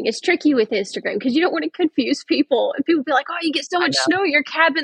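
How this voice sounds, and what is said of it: Thick Southern US Georgia accent. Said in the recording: “we are from Georgia, born and raised ... yeah, I can tell now ... my accent is so thick ... that accent”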